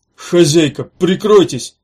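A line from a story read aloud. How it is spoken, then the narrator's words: Shouted. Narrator (Russian): крикнул он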